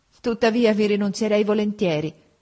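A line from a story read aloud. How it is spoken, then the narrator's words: Sighing, tearful. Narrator (Italian): soggiunse poi con un sospiro e una lagrima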